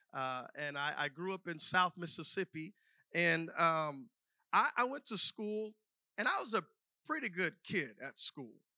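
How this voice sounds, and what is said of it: Slight Southern US accent. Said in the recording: “We are both from the South, and so there's probably a little bit of a Southern accent there.”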